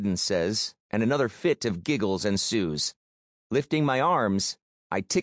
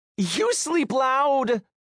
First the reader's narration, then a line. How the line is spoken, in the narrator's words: laugh hysterically